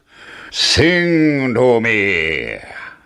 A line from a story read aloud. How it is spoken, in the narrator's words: roared the giant